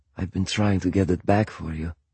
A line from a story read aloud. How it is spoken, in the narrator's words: he said